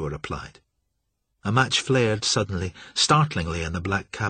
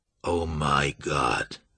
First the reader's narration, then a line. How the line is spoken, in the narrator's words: Marsh croaked